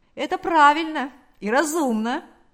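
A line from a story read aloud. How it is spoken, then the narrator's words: Joyful exclamation. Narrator (Russian): радостно воскликнул Валериан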